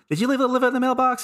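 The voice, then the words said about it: Imitates another person's voice. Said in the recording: “my Jerry Lewis impersonation”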